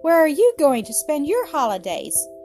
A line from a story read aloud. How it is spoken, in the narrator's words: cried Bertie